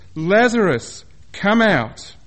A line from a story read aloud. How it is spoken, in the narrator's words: Jesus said in a loud voice